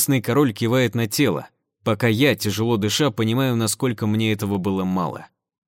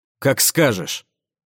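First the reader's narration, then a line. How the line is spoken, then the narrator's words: Angry snort. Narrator (Russian): Зло хмыкнув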